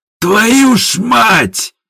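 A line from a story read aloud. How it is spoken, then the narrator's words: Yelling. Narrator (Russian): заорал Степа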